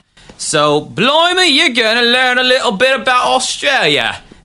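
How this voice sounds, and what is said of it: Bad put-on Australian accent. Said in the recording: “That was probably an awful Australian accent.”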